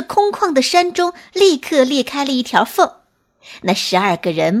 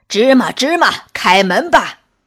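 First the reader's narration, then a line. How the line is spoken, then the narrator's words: Loud group call. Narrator (Chinese): 那十二个人 大声叫道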